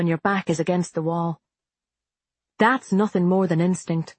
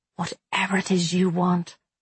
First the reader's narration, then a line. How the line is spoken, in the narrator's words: I said softly